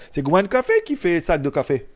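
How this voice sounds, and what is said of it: Put-on French overseas territories accent. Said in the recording (French): “Comme diraient nos amis des Dom-Tom ... Avec l'accent et tout.”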